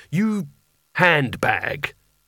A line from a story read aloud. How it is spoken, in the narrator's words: he growled